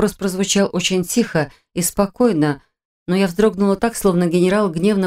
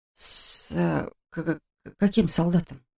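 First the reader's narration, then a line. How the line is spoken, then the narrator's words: Slight stammer. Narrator (Russian): Только и смогла уточнить я, слегка заикаясь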